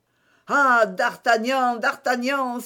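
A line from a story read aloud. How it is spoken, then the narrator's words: Exclaimed. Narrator (French): s'écria Aramis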